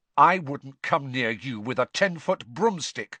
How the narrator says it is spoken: said Harry furiously

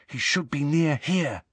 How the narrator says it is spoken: whispered Harry

